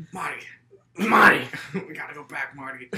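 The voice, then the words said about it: Movie character impression. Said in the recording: “It's a great bit impression.”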